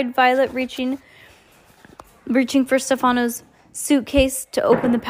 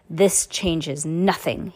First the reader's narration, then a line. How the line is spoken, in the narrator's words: hissed